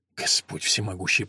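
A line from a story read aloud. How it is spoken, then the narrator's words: Muttered in German. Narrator (Russian): пробормотал Вульф по-немецки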